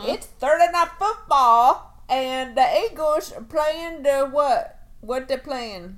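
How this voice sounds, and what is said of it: Put-on Southern US accent. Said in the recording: “I'm talking like I'm from Mississippi today ... Southern accent slander ... my Southern impressions”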